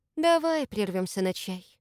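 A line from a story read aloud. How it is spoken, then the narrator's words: Sighing. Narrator (Russian): наконец вздохнула Маша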